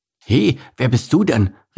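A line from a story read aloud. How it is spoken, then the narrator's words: Calling out. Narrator (German): rief Bert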